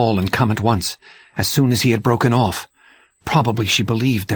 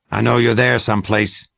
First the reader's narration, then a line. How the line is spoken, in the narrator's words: he said